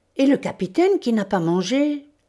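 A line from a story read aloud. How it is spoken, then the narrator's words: Exclaiming. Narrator (French): s'écria Castor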